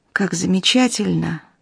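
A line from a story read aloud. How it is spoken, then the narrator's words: Sighing. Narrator (Russian): вздохнул он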